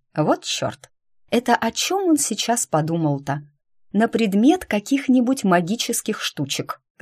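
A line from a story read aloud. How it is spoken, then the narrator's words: Calm, finishing a request. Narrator (Russian): закончила я свою просьбу, мысленно умиляясь тому, как спокойно об этом говорю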